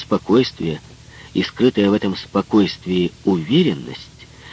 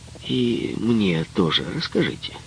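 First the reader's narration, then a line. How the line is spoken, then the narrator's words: Calm suggestion. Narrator (Russian): Гендюз также спокойно предложил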